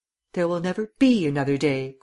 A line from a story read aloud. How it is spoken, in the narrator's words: cried the princess